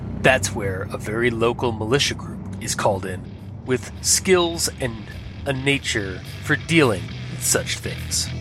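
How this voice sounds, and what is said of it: Speaks with a put-on accent. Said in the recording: “he's got an accent”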